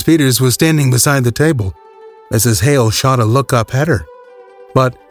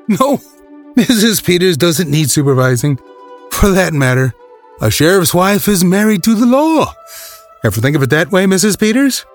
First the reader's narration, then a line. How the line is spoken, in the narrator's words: With another little laugh, he turned away, saying